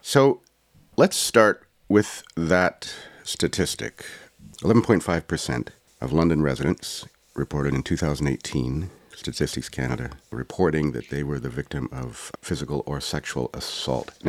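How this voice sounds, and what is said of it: Congested, sniffly voice. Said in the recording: “I apologize for my voice if I might cough or sniffle because I'm dealing with a bit of a, a bad cold”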